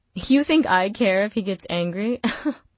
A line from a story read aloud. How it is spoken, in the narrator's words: Juliet laughed